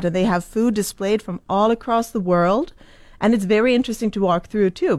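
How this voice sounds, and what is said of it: Swedish accent. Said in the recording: “I went home to Sweden, where I'm from. That's the accent.”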